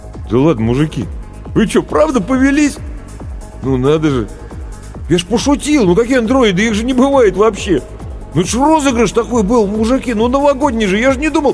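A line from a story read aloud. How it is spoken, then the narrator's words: Confused babbling. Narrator (Russian): растерянно лопотать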